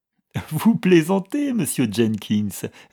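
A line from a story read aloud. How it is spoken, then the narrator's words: Laughing reply. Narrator (French): répartit Algernon en riant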